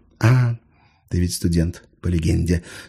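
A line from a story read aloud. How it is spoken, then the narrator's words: Agreeing sigh. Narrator (Russian): согласно вздохнул Виктор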